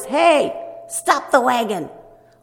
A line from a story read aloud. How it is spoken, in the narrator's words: someone said in a very loud voice